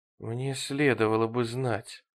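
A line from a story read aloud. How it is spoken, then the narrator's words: Puzzled mutter. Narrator (Russian): недоуменно пробормотал он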